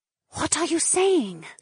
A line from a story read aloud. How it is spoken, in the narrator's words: Edeny whispered